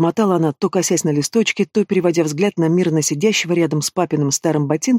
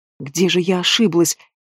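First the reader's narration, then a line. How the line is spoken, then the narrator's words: Desperate whisper. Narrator (Russian): отчаянно шептала она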